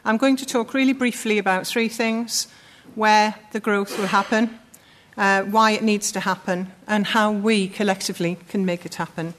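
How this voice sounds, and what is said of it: Sunderland accent. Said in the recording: “coming from Sunderland, as you can probably tell from the accent”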